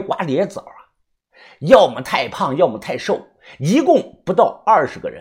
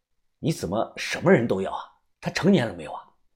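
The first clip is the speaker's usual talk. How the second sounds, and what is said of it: Quiet, hushed speaking voice. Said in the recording (Chinese): “小声地说”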